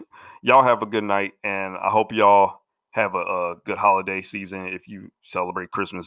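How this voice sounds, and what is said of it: Congested, sick-sounding voice. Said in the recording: “I'm actually dealing with a cold. You could probably hear it in my voice.”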